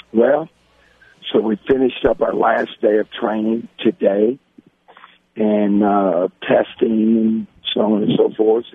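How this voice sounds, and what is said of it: Strained, damaged-sounding voice. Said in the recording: “my voice is kind of messed up right now”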